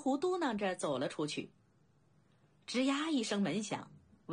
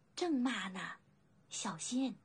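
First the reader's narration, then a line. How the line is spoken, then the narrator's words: Whispering. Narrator (Chinese): 小灵狐悄声道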